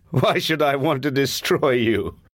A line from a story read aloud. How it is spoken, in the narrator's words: said, laughing